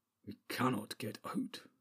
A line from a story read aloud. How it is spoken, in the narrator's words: muttered Gimli